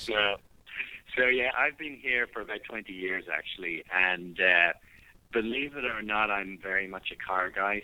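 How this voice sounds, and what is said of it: Irish accent. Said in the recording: “I don't know if you can still hear the accent, but I'm from Ireland originally. ... Yeah, of course we can.”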